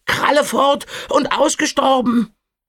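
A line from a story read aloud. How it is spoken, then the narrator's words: Croaking voice. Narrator (German): krächzte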